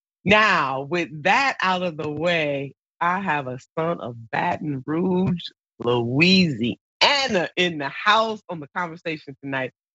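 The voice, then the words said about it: Nasal, congested voice from a cold. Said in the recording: “I do have a cold. ... I sound a little nasally”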